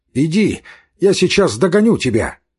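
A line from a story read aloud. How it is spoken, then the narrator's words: Shouted. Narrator (Russian): крикнул он Яшвину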